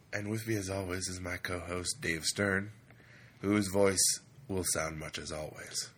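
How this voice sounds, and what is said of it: Deep, strained voice. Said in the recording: “This is my deep announcer voice, thanks to a weekend of screaming.”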